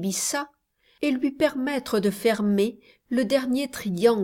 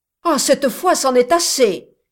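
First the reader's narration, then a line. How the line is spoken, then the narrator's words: Friar exclaiming. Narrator (French): s'écria le frère Cib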